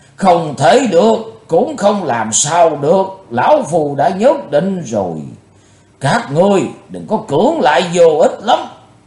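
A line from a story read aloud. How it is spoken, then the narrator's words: Thunderous booming voice. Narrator (Vietnamese): Lão tà nói như trời gầm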